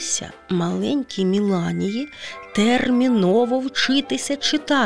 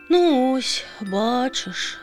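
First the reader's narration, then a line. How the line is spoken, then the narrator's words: Sighing again. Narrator (Ukrainian): знову зітхнула пташка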